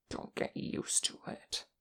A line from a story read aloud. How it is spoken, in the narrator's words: Kim hissed under his breath